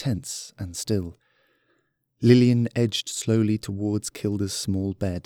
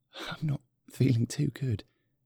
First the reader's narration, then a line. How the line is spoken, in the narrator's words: whispered Kilda